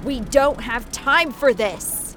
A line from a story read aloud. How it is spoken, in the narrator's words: Angel shouted